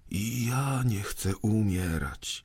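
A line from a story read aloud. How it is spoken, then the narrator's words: Quiet speech. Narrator (Polish): powiedział cicho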